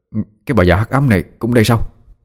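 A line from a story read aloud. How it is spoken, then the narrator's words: Astonished mutter. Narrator (Vietnamese): kinh ngạc, miệng lẩm bẩm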